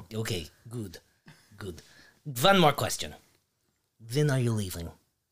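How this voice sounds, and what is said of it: Put-on accent. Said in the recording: “This accent's hard to keep up.”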